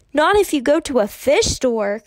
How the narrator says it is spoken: Kirsty bellowed

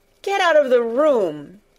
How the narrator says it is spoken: he shouted

